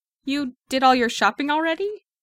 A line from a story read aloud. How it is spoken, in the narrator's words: Clint blurts out